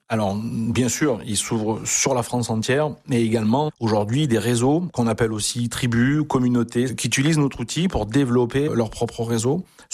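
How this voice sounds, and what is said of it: Avignon southern French accent. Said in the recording (French): “est né en Avignon ... on entend l'accent aussi depuis tout à l'heure.”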